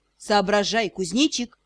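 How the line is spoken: Snorted. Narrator (Russian): хмыкнул Шон

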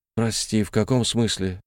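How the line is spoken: Barely audible question. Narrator (Russian): спросил я еле слышно

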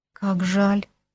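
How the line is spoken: Barely audible. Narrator (Russian): еле слышно произнесла она

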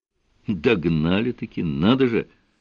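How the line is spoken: Surprised mutter. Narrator (Russian): с ноткой удивления в голосе пробормотал Сварог

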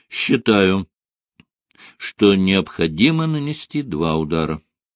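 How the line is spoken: Calm. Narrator (Russian): спокойно произнес он

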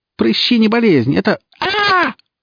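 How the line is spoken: Howl of pain. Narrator (Russian): Взвыла она, когда молния той же мощи, что и предыдущая, врезалась в стену, на этот раз ухо опалив и достаточно сильно

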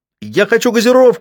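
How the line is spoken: Yelled again. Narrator (Russian): снова завопил Калли

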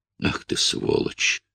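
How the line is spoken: Hissing through teeth. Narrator (Russian): шипел он сквозь зубы

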